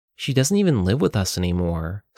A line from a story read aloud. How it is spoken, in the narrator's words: said Kayla